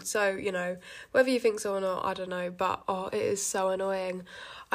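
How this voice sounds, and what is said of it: Congested voice, sounds like a cold. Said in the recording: “I've got a cold right now, so I think my mum says I sound like I've got a cold.”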